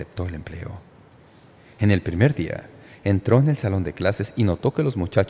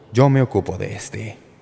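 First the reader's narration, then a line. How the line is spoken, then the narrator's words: Loud, meant to be overheard. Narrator (Spanish): En voz alta, como para que el nuevo maestro lo oyera, Tomasón dijo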